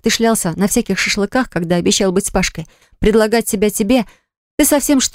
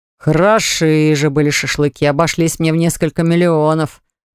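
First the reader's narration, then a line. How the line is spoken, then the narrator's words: Booming over the phone. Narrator (Russian): прогремел в трубку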